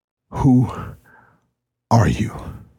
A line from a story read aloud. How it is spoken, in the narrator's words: Mateo asked, between gasps